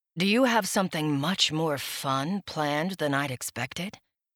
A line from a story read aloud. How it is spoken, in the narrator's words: He murmured